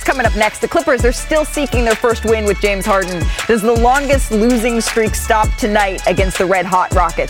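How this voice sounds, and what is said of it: Exaggerated game show host voice. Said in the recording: “in my game show voice”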